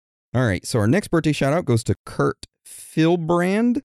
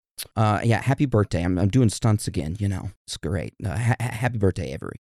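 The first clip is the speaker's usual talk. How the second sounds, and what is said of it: Imitates another person's voice. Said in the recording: “best Ryan Reynolds impersonation ... That was perfection. ... I suck at Ryan Reynolds.”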